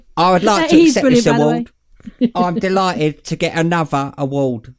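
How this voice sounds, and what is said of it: Uncanny impression of a podcaster. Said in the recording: “I do an impression of him ... it's a good impression ... He's uncanny. Yeah. Uncanny.”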